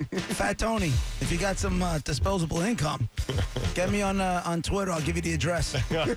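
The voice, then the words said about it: Hoarse, fading voice. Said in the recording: “Why am I losing my voice?”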